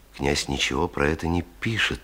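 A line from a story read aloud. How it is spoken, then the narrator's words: Quiet. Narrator (Russian): тихо сказал он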